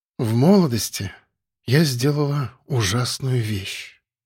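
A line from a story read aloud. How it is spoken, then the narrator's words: Quiet breathy widow. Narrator (Russian): тихо выдохнула вдова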